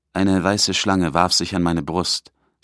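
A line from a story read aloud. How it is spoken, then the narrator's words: Plain. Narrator (German): sagt er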